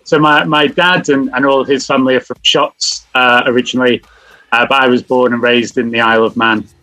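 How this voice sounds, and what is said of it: English accent. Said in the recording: “the English accent”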